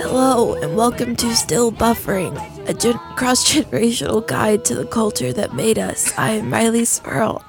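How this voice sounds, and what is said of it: Hoarse, damaged voice. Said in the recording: “the dreaded mononucleosis has attacked my vocal cords and left me with this shell that I once filled with a beautiful voice”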